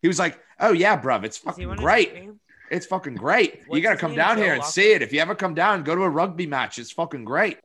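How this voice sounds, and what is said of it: Put-on mixed British Irish accent. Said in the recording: “What kind of accent is that? That was a Conor McGregor fucking Simon Cowell, Harry Styles mashup. ... He's from the West End of London ... I'm not a Brit. I don't have this great limey accent”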